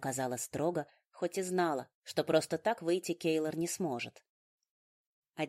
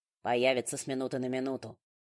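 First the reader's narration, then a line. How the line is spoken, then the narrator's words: Grim warning. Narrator (Russian): мрачно предостерег Даггер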